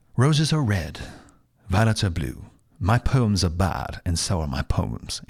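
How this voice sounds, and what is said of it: Put-on British accent. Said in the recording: “my British accent.”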